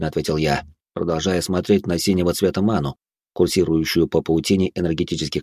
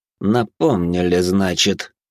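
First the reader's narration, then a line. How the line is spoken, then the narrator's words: Through gritted teeth. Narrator (Russian): сквозь зубы процедил благородный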